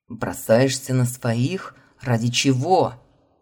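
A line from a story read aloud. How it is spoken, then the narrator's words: Wheezing man. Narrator (Russian): Просипел мужчина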